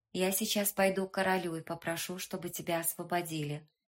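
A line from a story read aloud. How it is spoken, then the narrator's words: Quick explanation. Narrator (Russian): быстро объяснила она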